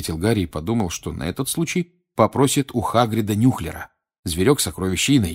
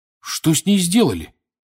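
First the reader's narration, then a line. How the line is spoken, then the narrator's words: Indignant exclamation. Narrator (Russian): с возмущением воскликнул он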